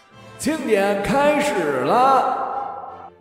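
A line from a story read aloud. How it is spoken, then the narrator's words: Shouting to a crowd. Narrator (Chinese): 主持人向议论纷纷的人群喊了一声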